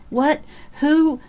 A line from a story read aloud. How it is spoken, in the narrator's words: Lydia Carr gasped